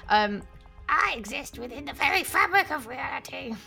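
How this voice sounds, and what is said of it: Creepy goblin-like demon voice. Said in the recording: “creepy voice ... best demon voice ... I'm gonna go really goblin ... It went a bit goblin”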